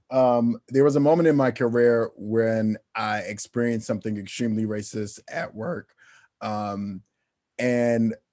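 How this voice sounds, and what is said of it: Slightly slurred speech. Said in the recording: “I'm slurring a little bit, it's because I drank the good Hennessy”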